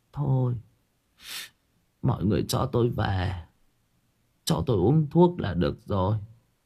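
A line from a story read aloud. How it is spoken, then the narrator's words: Tearful quivering voice. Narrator (Vietnamese): Bà Mỹ mếu máo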